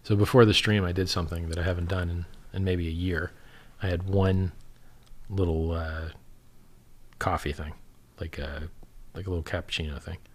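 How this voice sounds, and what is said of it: Tired, weird-sounding, strained voice. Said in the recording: “I feel tired as hell ... I can hear my voice is starting to sound weird ... if I get really, really tired, my voice starts to give up”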